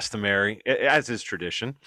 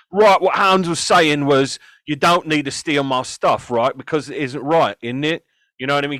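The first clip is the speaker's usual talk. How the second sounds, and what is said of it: Put-on Cockney accent. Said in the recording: “Throw your voice. Do something. Give me a Cockney accent. ... I was waiting for the init to come in there, man.”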